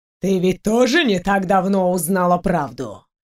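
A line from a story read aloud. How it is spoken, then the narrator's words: Man's snort. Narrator (Russian): хмыкнул мужчина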